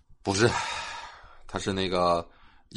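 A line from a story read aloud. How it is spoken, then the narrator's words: Flat, casual. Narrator (Chinese): 淡淡的说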